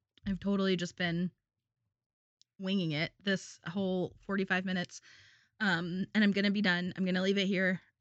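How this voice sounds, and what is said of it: Cracking, strained voice. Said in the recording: “my voice is cracking at this point.”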